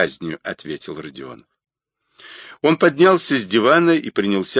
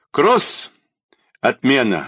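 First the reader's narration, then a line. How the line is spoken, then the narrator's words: Curt shout. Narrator (Russian): отрывисто крикнул Павел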